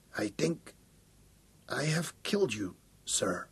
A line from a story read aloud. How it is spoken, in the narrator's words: Schroeder whispered